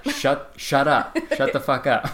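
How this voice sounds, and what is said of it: Imitates another person's voice. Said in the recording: “That was my impression of”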